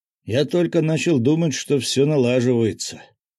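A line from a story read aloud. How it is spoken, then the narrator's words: Muttering. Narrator (Russian): пробормотал Мышкин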